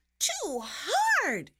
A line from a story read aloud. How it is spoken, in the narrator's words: cried